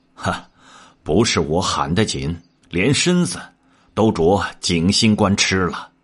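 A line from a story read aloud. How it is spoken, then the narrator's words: Laughing. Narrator (Chinese): 魔昂笑道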